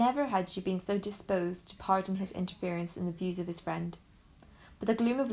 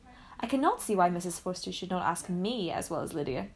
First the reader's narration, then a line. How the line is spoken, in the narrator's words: said she